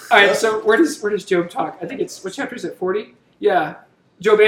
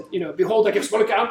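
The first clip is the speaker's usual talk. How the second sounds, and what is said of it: Mel Gibson Scottish brogue impression. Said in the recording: “I can hear this in a Mel Gibson Scottish accent ... Like he's got an Irish Scottish brogue.”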